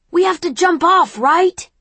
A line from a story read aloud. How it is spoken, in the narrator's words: I shout over the wind